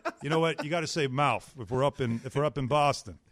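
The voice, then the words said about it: Boston accent. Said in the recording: “You just did that Boston accent. You just naturally.”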